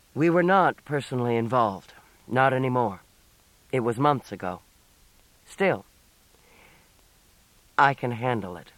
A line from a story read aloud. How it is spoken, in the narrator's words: Ben said flatly